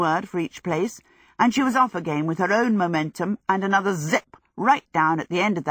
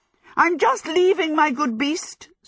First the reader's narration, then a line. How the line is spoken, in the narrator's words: cried, hopping herself round frantically